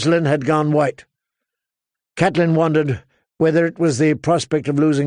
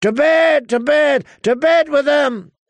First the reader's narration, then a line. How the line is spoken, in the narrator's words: A score or more of Walder Frey's sons and grandsons shouting